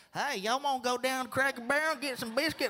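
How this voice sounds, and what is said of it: Put-on Southern Alabama accent. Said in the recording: “I grew up in Alabama ... you ever notice that your accent can come back if you hang out with the certain people? Like it, it, it comes back.”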